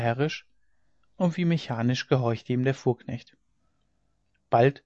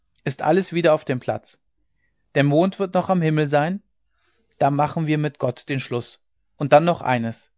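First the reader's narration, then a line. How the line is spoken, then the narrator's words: Calling out. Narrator (German): rief er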